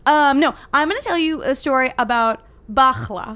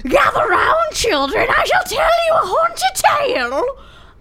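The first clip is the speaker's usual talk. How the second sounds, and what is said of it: Old witch character voice. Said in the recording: “That was your old witch. ... It was a good old witch voice.”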